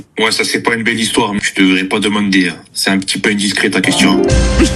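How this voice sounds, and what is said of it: Corsican-sounding French accent. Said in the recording (French): “Il a un accent corse. ... c'est sicilien.”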